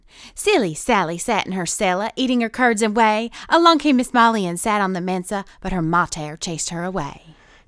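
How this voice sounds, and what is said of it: Reads rhyme in put-on accent. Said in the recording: “Now, add an accent just for fun.”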